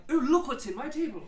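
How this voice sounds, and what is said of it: Refined, posh put-on accent. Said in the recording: “the accent is slightly more refined”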